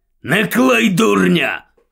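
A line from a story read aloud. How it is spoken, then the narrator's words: Gruff bark. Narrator (Ukrainian): гаркнув Муді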